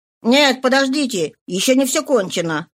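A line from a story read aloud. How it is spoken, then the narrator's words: Excited shouting. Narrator (Russian): кричал Жорж, постоянно увлекавшийся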